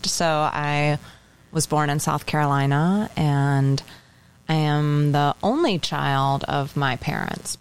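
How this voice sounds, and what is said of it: Southern US accent. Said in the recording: “southern accent... I'm going to start sounding like I'm from the South”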